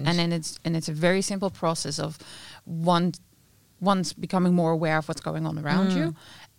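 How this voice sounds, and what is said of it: Dutch accent with slight Irish tinge. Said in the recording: “You've got a bit of an accent there. Yeah. I sense it's Dutch. ... Oh, it's a wonderful accent. ... I can hear a little tinge of Irish there. ... Just a bit, but Dutch.”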